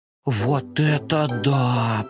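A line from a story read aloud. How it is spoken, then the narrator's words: Drawn-out, amazed. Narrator (Russian): протянул Компот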